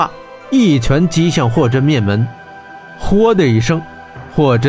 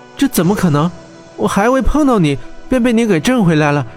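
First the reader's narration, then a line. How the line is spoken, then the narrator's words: Panting. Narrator (Chinese): 温莎喘气道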